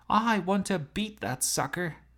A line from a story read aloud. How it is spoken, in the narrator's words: cried Chloe